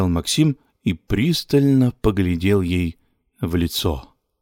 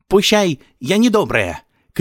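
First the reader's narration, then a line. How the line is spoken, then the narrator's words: Shouted. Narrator (Russian): крикнула она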